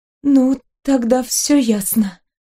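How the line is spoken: Trembling voice. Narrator (Russian): сказала я дрожащим голосом

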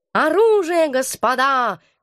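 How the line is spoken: Shouting. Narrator (Russian): крикнул кот

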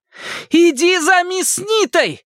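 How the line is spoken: Shouting over whining bullets. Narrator (Russian): крикнула она сквозь визг пуль

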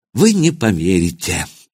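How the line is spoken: Sighing. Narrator (Russian): академик вздохнул

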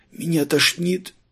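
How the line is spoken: Wheezing, hoarse. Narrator (Russian): Просипел он

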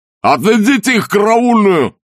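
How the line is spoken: Shouted. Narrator (Russian): закричал он

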